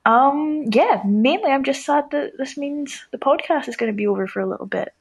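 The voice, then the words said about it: Scottish accent. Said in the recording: “I need to study your accent... we need more calls from Scotland”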